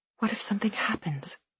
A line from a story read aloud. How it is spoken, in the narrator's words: I whispered